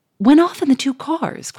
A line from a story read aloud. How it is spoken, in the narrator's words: cried the millionaire, in blank stupefaction